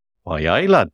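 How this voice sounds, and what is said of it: Put-on Newcastle Geordie accent. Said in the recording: “that was my Newcastle impression.”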